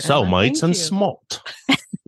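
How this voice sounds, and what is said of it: Poor put-on Australian accent. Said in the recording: “That is a terrible Australian accent. ... doing Australian accents”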